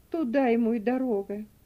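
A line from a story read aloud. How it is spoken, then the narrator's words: Gloomy agreement. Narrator (Russian): мрачно подтвердила тетушка Хлоя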